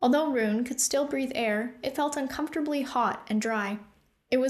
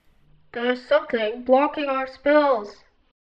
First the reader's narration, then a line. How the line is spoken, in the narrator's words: Killian said in a gargled, underwater voice